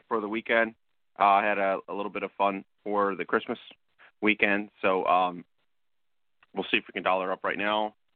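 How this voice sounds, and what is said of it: Slightly crackly, hoarse voice. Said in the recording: “My voice is a little crackle”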